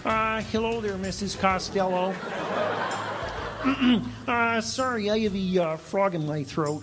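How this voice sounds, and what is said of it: Kermit the Frog voice impression. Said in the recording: “my Kermit the Frog impression”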